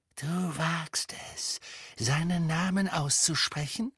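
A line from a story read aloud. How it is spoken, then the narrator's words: Whispering. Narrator (German): flüsterte Bellatrix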